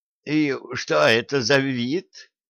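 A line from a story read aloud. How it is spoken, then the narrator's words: Timid question. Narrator (Russian): робко спросил Федя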